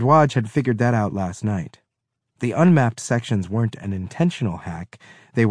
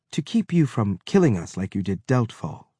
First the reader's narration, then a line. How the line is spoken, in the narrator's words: Mensa said, keeping her voice even